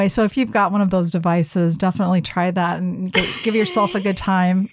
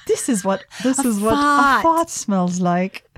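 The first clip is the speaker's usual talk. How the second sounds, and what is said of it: Put-on British accent. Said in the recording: “with a British accent.”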